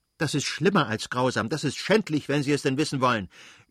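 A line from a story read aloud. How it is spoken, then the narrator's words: Screaming in a rage. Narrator (German): schrie Anna in einem Wutausbruch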